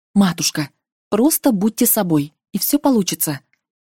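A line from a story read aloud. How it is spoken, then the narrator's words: Whisper. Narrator (Russian): шепнув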